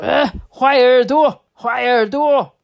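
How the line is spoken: Shouting. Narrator (Chinese): 一边叫着说

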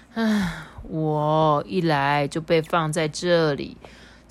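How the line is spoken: Sad sigh. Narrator (Chinese): 灰灰难过的叹了一口气，说

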